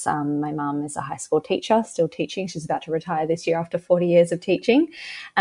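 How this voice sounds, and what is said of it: Australian accent. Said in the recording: “I live in Australia, if you can tell by my accent”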